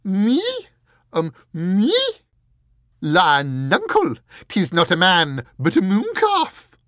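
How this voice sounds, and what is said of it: Squeaky elderly theatrical Scottish accent. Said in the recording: “squeaked the fool, in an elderly, rather theatrical imitation of Richard's Scottish accent.”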